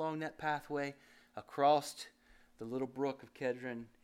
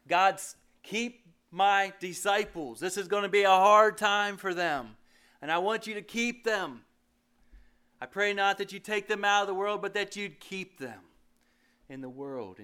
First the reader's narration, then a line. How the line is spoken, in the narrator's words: Jesus cried out to God